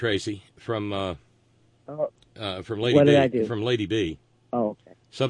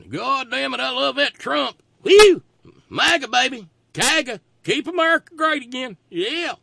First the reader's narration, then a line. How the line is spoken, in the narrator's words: those are the folks sitting around hollering